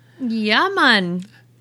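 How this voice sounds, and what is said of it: Put-on Jamaican accent. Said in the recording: “version of a Jamaican accent”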